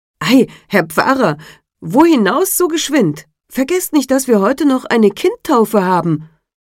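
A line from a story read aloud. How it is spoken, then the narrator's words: Astonished call. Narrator (German): verwunderte sich und rief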